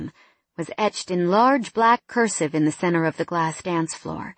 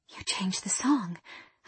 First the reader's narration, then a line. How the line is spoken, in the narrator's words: I whispered